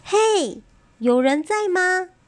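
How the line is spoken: Calling into cave. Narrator (Chinese): 他对着洞口又叫了一次

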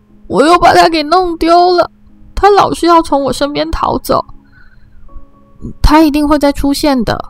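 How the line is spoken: Loud wailing. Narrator (Chinese): 他就放声哭喊

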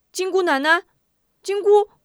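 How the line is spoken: Hurried calling. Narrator (Chinese): 忙喊

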